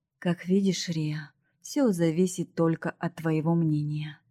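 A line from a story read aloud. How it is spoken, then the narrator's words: Calm reminder, father. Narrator (Russian): спокойно напомнил папа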